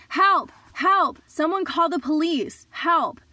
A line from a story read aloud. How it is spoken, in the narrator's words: started screaming at the top of my lungs